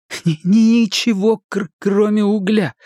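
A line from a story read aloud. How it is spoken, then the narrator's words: Nervous laugh. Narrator (Russian): Билл нервно рассмеялся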